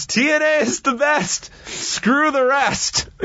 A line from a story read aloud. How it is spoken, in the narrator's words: he yells